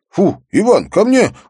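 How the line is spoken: Shouted command. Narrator (Russian): крикнул кинолог

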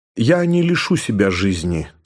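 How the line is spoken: Calm reply. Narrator (Russian): спокойно ответил Шварц

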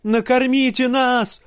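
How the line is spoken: Woman shouting. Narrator (Russian): крикнула женщина

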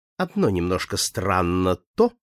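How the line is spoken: Calm. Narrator (Russian): спокойно проговорил клерк

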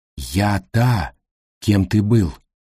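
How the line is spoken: Quiet machine buzz. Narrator (Russian): тихонько жужжала машинка

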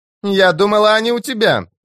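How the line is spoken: Shouted reply. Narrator (Russian): крикнула она в ответ

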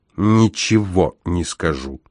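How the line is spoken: Growled. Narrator (Russian): прорычал он

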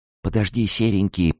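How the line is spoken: Whispered. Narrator (Russian): прошептала я

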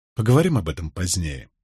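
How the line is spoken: Quiet. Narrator (Russian): негромко произнес я

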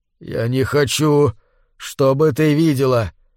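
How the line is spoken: Barely audible altered voice. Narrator (Russian): едва слышно произнес он изменившимся голосом

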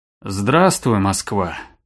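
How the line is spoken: Grumbled from above. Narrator (Russian): буркнул с высоты новообретенного роста жмур

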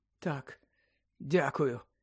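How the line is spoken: Weak. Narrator (Ukrainian): слабким голосом обізвався Гаррі

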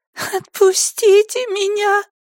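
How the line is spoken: Sobbing. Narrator (Russian): всхлипнула пелерина

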